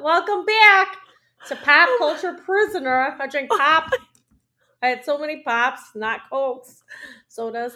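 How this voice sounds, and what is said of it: Chicago accent. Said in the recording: “I have a Chicago accent right now”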